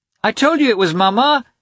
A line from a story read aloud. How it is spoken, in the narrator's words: he shouted to the governess